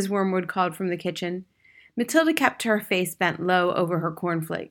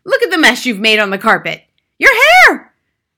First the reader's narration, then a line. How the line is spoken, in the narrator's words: The mother was shrieking